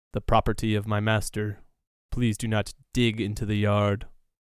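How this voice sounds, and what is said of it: Monotone robotic character voice. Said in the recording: “its voice is kind of like monotone”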